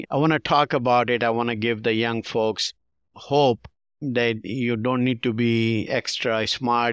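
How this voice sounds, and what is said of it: Pakistani-accented English. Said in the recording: “immigrant from Pakistan, and accent and everything”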